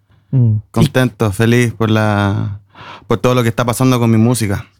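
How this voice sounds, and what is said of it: Chilean Spanish accent. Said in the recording (Spanish): “esto se oye con acento chileno.”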